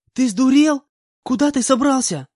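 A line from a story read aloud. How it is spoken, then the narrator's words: Angry shout. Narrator (Russian): Закричала на меня Нага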